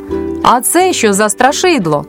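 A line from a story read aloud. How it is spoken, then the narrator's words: Boy shouting. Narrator (Ukrainian): Якийсь хлопчик закричав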